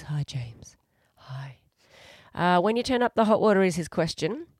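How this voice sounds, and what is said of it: Put-on sexy voice. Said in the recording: “sexy voice”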